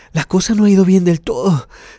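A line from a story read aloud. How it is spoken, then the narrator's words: Panting. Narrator (Spanish): dijo Dick jadeando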